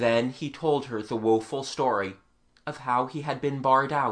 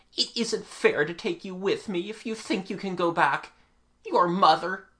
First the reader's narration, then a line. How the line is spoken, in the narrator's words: he cried